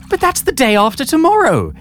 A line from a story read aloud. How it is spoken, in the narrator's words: exclaimed Bernard, jowls a-quiver